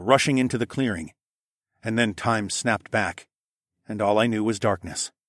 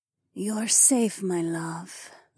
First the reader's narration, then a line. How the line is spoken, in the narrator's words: Zoe purred